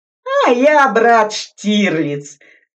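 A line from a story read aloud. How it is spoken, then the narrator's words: Laughing. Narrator (Russian): засмеялся шофер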